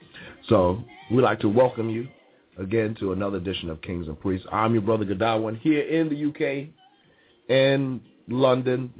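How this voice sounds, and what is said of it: Slightly strained voice from a cold. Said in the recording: “my voice is going a little bit. I've got a little cold”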